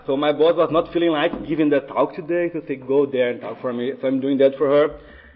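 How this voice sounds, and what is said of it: Accented English, fairly fast speech. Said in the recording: “I think you guys can tell I have an accent ... I do speak kind of fast”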